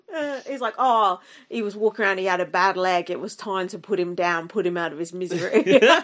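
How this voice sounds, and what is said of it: Put-on Australian accent. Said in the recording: “your Australian accent is so good today ... the stuffed up nose”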